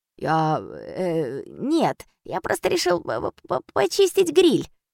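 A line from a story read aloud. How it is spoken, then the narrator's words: Muttered. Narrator (Russian): пробормотал Немо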